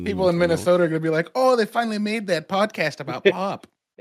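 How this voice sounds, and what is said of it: Put-on Fargo Minnesota accent. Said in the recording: “That's a weird accent there ... it's an enhanced Missourian. It's enhanced Missourian accent. ... I did the Fargo accent.”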